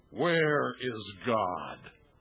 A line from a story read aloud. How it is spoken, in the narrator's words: The clergyman, a huge man with a booming voice, asked him sternly